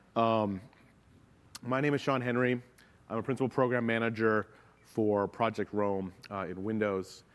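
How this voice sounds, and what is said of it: Slightly hoarse voice. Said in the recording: “I got a bit of a cold, so if my voice sounds a little hoarse or I have to cough”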